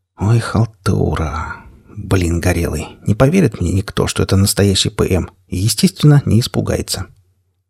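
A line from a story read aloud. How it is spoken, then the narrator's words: Whispered. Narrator (Russian): прошептал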